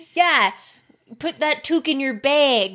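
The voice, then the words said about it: Put-on Canadian accent. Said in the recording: “what was that accent? ... Canadian accent?”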